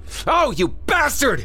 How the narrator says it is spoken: Craig screamed

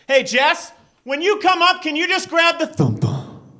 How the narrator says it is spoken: I yell downstairs, I say

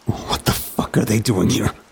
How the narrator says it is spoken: insisted through clenched teeth

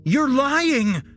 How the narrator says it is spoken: Jesse shouted

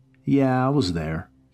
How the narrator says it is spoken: he said coldly

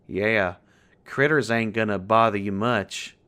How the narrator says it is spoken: chuckled under his breath

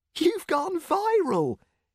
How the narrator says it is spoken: he squeaked

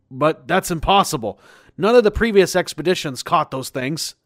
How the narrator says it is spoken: yelled

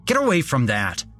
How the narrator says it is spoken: I shouted

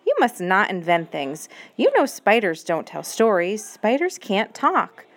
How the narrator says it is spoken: said her mother sternly

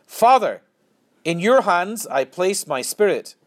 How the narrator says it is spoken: Jesus cried out in a loud voice

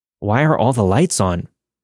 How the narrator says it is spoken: my mother exclaimed

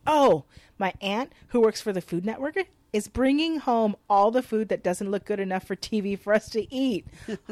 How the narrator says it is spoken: Boomer excitedly relates

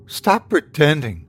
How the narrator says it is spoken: she said, her tone controlled but shaky

